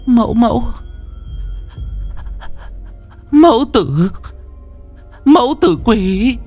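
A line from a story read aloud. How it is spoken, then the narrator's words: Stammering old woman. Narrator (Vietnamese): bà thầy lắp bắp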